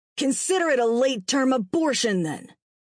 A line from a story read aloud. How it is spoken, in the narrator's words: Lee snarled